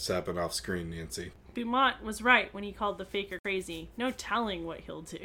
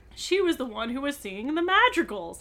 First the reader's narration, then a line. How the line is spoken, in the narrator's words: Nancy exclaimed